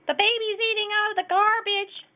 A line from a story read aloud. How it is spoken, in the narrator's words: Barney Loud shouted